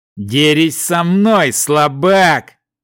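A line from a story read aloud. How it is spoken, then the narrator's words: Growling big man. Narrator (Russian): прорычал здоровяк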